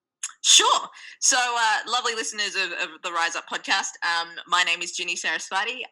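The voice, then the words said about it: Australian accent. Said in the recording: “migrated to the land down under, Australia, when I was two. Hence my very cute accent”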